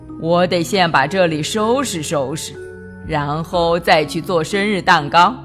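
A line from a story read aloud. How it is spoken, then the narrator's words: Sighing old man. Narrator (Chinese): 派老头叹了口气说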